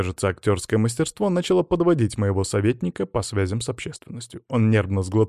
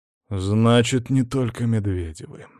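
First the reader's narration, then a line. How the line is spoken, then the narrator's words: Sighed. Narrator (Russian): вздохнул я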